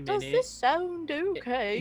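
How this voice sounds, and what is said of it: Poor fake posh British accent. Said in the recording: “put on a fake British accent ... It's pretty terrible. Posh.”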